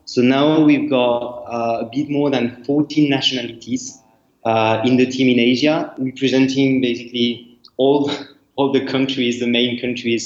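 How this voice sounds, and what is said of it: French accent. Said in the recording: “I'm, French, uh, as you can see with my accent.”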